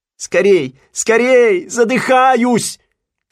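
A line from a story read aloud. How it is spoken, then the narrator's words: Shouting. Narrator (Russian): кричал Симпкинс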